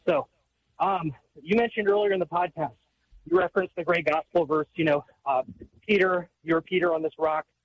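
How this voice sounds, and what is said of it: Out of breath, breathless speech. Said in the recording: “Sorry, I'm out of breath working right now.”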